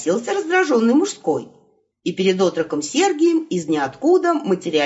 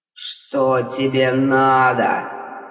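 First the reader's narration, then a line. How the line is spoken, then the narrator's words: Angry snap. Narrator (Russian): Злобно бросил Хтон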